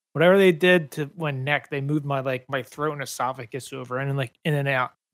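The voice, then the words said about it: Hoarse, deeper voice. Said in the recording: “My throat is hoarse, man ... So I sound a little more manly ... Set a little more deep.”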